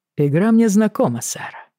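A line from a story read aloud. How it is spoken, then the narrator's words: Very dry reply. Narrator (Russian): крайне сухо отозвался Джейми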